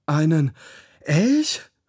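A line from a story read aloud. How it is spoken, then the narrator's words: Gasping. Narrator (German): keuchte Raffi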